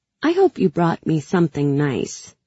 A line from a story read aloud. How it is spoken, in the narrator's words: I said